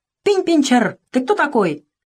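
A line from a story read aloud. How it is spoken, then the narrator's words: Angry shout. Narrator (Russian): Зинзивер рассердился и крикнул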